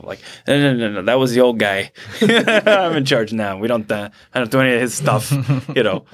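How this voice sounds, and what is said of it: Put-on New York accent. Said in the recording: “I like his accent ... a little New Yorker, actually.”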